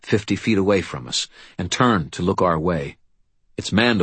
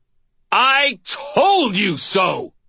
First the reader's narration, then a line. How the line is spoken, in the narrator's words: I screamed